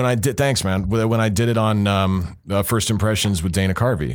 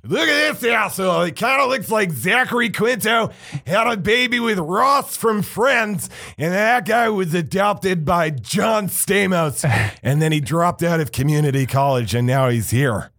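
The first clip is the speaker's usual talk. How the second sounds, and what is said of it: Imitates another person's voice. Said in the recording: “my impression of, I loved TJ so much ... That is such a good impression ... that's what I did him ripping me apart”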